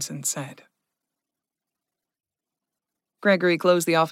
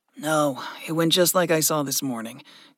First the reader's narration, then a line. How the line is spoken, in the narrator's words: Gregory sighed